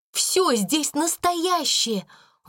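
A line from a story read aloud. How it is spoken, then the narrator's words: Exclamation. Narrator (Russian): воскликнула она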